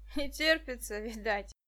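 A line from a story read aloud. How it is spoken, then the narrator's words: Laughing short man. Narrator (Russian): засмеялся коротышка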